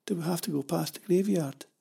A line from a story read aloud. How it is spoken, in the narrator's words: she asked, her voice thin and listless